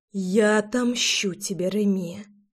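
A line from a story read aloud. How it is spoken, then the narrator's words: Venomous hiss. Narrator (Russian): прошипела Руслана, точно дикая ядовитая кобра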